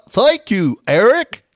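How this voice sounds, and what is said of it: Goofy cartoon character voice. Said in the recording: “my Goofy impersonation”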